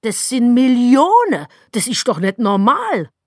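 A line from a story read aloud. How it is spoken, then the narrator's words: Shouting into phone. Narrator (German): schrie ins Telefon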